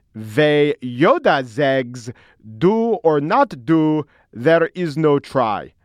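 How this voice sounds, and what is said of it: Yoda voice with Flemish accent. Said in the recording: “I'm doing Yoda with the Flemish accent there.”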